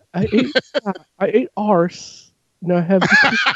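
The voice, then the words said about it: Bad put-on English accent. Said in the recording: “that's the worst English accent ... It's the King's English.”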